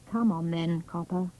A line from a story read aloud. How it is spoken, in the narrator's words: muttered